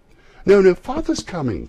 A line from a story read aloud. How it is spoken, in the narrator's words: cried the two young Cratchits